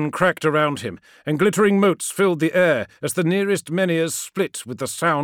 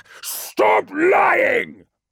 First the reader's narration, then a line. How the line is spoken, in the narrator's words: roared Magnus